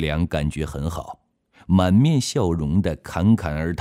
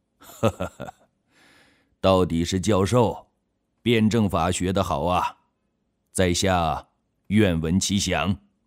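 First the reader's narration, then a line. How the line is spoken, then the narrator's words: Laughing. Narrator (Chinese): 沙瑞金笑了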